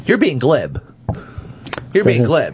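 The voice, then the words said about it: Imitates another person's voice. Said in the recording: “your Tom Cruise impression ... Bob did a better impression than you.”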